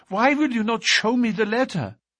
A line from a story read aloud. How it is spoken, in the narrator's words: cried